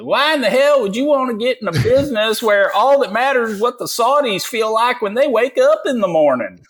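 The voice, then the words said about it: Fake Texas accent. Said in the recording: “that is a good fake Texas accent”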